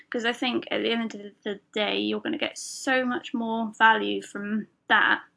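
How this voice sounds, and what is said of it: British accent. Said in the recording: “if you hadn't guessed from the accent, from the UK”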